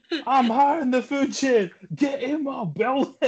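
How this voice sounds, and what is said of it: Fat Bastard impression. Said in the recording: “just do Fat Bastard straight up”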